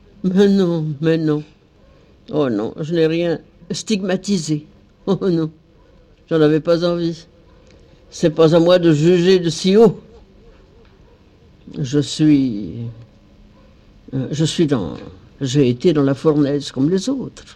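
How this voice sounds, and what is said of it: Burgundian accent with rolled r's. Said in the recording (French): “cet accent bourguignon qu'elle n'a jamais perdu tout au long de sa vie, avec cette façon de rouler les airs”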